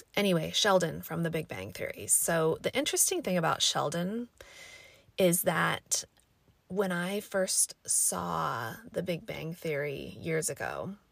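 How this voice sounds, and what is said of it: Raspy, scratchy voice. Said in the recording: “my voice is raspy. I just woke up. ... my allergies have been crazy lately, so like my voice is a little bit scratchy”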